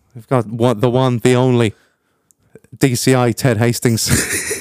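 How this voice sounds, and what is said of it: Poor put-on Irish accent. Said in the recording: “That was a really rubbish Irish accent.”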